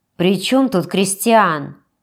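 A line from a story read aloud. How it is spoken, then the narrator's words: Grumbled. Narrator (Russian): буркнула Штрауб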